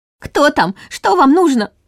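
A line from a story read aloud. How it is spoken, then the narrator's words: Frightened near-shriek. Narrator (Russian): Чуть ли не взвизгнула Нина, поддаваясь иррациональному страху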